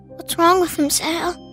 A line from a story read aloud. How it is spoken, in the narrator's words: Pete whispered